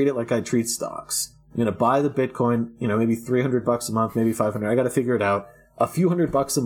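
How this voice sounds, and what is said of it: Usual voice. Nothing is said of it.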